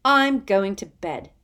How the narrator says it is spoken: Hermione snapped

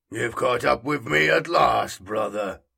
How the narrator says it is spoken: rumbled the figure

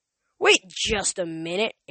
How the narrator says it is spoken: Ares growled

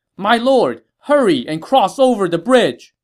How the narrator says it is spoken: Ling Tong, seeing that things were not going well, shouted to Sun Quan

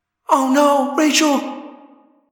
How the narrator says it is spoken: Cassie cried

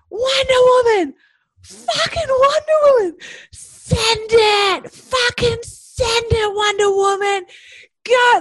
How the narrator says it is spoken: like wailing like a legend, swearing at me like

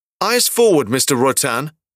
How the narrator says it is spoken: barks

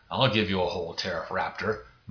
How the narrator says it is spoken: muttered the T-Rump

